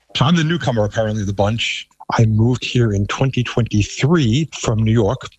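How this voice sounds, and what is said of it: Thick New York accent. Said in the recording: “I still have a very thick New York accent,”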